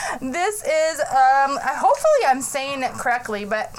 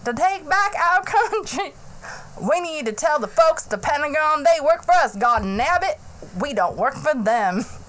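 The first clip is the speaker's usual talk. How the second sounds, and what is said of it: Imitated Tennessee accent of Representative Burchett. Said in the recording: “his name is Mr. Burchett... Representative from Tennessee. And his accent did not sound as stupid as mine.”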